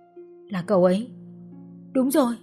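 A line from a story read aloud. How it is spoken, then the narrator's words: Trembling murmur. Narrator (Vietnamese): Trang run run đôi bờ môi, cô mấp máy nói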